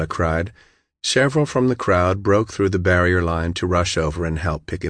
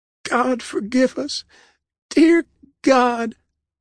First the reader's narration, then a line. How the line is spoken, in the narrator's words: she sobbed